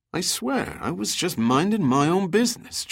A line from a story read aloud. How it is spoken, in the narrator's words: Giordino muttered